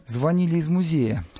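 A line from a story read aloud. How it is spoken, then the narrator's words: Plain. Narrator (Russian): сказал он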